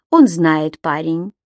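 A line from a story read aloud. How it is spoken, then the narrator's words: Laughing. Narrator (Russian): засмеялся Мак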